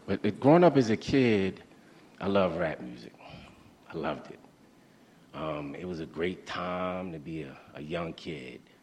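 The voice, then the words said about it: A somewhat messed-up voice. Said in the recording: “excuse me, my voice is a little messed up”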